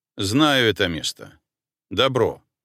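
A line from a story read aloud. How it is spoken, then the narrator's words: Dry. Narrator (Russian): сухо ответил чекист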